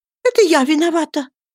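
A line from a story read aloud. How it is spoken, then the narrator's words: Passionate exclamation in French. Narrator (Russian): воскликнула она страстно по-французски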